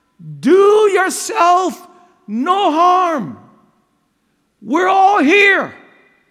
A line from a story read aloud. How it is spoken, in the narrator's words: Paul yells out